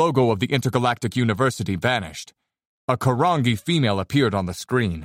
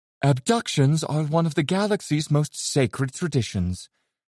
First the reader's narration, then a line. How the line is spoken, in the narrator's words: she said in her smooth, delicate voice